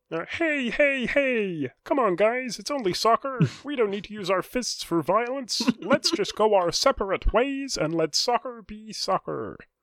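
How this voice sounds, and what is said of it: Put-on American accent, Kermit the Frog-like. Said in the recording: “in the most American accent ... You asked for American, I gave you Kermit the Frog.”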